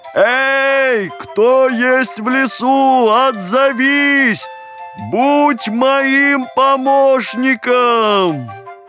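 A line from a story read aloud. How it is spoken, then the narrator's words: Shouting. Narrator (Russian): закричал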